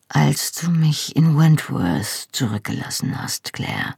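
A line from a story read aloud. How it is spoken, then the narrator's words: Quiet. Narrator (German): sagte er leise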